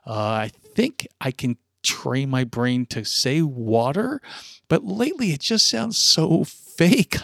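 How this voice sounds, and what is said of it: South Jersey accent. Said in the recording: “Did you say wooder? ... it's a South Jersey thing ... Proud of my South Jersey freakish accent when it comes to that word”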